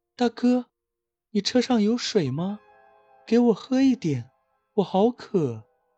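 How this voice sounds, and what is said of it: Soft, quiet voice. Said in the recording (Chinese): “小声”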